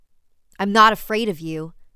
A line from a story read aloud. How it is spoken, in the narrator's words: shouted at the children